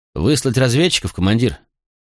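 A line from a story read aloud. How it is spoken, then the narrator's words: Plain. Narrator (Russian): спросил Пракс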